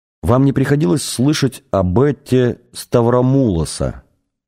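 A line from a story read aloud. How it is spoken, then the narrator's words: Plain. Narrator (Russian): спросил Артур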